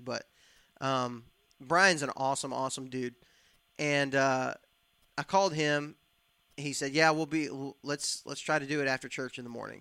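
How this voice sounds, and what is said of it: Scratchy, fading voice. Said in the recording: “my voice is going away right now. I can hear it getting scratchy.”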